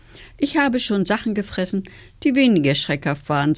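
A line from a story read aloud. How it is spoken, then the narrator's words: Sighing. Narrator (German): seufzte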